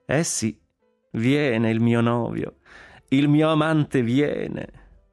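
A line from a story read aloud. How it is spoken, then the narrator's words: Laughing. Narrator (Italian): disse Consuelo ridendo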